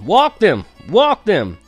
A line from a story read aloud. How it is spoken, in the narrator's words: Everyone started shouting